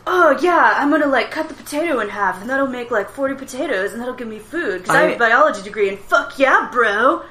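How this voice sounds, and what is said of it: Dudebro-style character voice. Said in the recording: “the voice of the scientist, he just sounds too much like a bro ... you sound like my younger brother”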